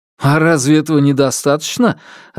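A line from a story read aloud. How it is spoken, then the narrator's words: Joyful question. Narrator (Russian): радостно спросил я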